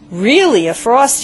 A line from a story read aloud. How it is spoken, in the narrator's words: he said